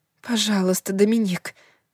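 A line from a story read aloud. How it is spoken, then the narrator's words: Breathed out. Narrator (Russian): выдохнула она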